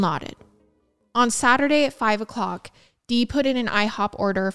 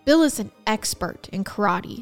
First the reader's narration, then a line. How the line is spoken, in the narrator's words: said Mike